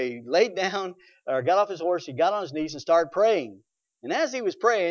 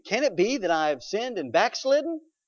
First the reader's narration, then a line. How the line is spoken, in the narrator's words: he exclaimed